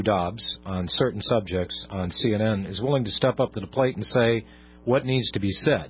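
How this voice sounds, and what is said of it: Slightly hoarse voice. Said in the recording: “I'm a little hoarse. I've got a frog or a bug or something down my throat.”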